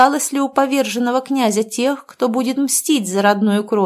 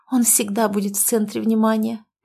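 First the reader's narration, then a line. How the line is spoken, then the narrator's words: Secretive whisper. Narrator (Russian): прошептала я так, чтобы нас никто не слышал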